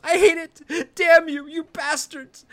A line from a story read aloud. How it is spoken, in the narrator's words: sobbing